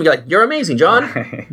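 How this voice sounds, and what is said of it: Old-timey 1920s-style accent. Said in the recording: “Old. I like your old-timey accent. that's great. Very like 1990s or 1920s.”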